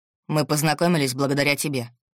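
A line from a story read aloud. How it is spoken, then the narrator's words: Icy cold reply. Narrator (Russian): ледяным тоном ответил Максим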